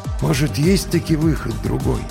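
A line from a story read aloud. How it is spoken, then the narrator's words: Quiet question. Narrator (Russian): тихо спросил Финист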